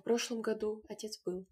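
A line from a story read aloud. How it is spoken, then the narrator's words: Plain. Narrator (Russian): сказала Груша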